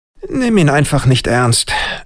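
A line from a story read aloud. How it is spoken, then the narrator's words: Tired dismissive. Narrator (German): winkte Schwab müde ab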